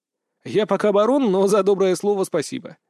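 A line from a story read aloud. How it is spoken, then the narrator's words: Laughing. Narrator (Russian): засмеялся я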